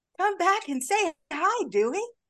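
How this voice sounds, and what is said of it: Imitates a film character's voice. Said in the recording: “my impression. It's really good.”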